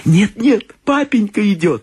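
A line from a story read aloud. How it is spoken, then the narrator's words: Squeaking young children. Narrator (Russian): запищали младшие Крэтчеты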